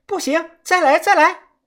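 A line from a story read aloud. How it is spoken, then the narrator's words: Strained, repeated shouting. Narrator (Chinese): 里头的那个女的啊，扯着嗓子，她不停的喊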